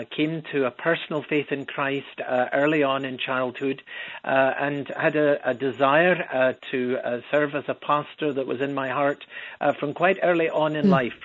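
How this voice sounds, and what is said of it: Scottish Edinburgh accent. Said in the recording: “as you'll pick up from the accent. I don't come from around the Chicago area ... I was born and raised in Edinburgh, Scotland”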